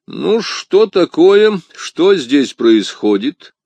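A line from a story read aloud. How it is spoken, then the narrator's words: Mocking question. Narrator (Russian): спросил он насмешливым голосом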